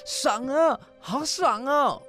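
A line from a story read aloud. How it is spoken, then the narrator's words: Breathless joyful shouting. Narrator (Chinese): 他跑得气喘吁吁的，却乐得大呼大叫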